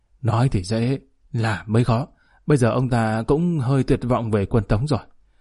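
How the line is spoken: Sighing. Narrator (Vietnamese): Trùng Sứ Đạo thở dài

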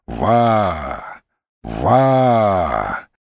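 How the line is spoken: Deep, rough bass. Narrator (Russian): дважды глухо и грубо отозвался бас

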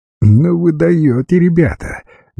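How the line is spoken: Cheerful inward laughter. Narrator (Russian): весело засмеялась про себя Света

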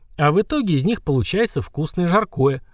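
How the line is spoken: Short laugh. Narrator (Russian): хохотнул Санти

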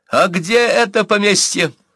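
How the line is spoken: Sudden shout. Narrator (Russian): Вдруг закричал Павел

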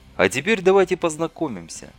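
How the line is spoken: Calm. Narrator (Russian): спокойно сказал Дорогин

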